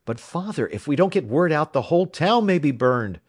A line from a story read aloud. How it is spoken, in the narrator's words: cried Jack